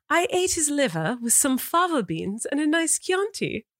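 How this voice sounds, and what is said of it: Proper British accent. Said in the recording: “Can you give me a British accent, please? ... like proper... ... This is the worst accent ever. ... That was good. ... That's very Downton of you. That's very Downton Abbey.”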